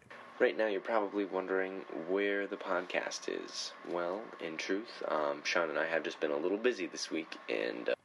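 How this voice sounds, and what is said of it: Flat, lifeless monotone delivery. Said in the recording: “You sound like a zombie. There is no zest. There is no life”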